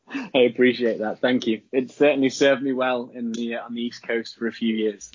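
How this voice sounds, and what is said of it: Distinctive accent. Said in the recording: “anyone has an awesome accent ... you have the accent”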